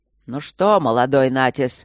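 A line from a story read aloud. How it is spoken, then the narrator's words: Gloomy roar. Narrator (Russian): проревел он уныло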